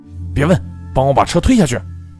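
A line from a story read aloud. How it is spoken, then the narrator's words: Roaring. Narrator (Chinese): 郝坚吼道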